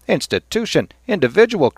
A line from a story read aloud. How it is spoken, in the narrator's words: cried Cranley